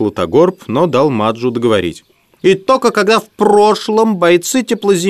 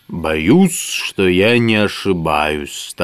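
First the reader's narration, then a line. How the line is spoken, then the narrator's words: Solemn wizard. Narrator (Russian): торжественно проговорил волшебник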